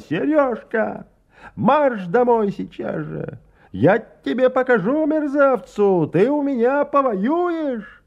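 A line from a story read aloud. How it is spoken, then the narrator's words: Unrestrained angry shout. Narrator (Russian): охваченная этими мыслями, Антонина Васильевна, уже не сдерживая себя, закричала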